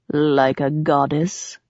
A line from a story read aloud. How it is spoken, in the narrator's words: asked, his voice dropping an octave